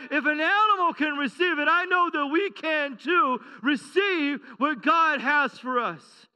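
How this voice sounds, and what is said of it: Excited yelling preacher. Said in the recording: “I know I'm getting excited. I know that I'm yelling, but I'm a little ramped up this morning.”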